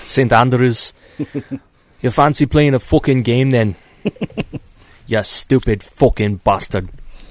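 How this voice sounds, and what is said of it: Put-on Scottish accent. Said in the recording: “if I speak in an accent ... I think you should just speak in a Scottish accent from now on every time we play”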